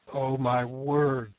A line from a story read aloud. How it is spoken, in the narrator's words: groaned Sir Henry